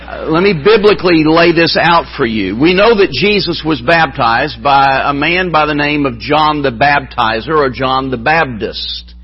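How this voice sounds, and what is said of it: Appalachian American accent. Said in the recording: “been in Appalachia, you know, for a number of centuries now. But so I come by the accent honestly”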